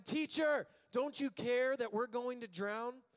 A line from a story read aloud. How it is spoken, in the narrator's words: the disciples woke him up shouting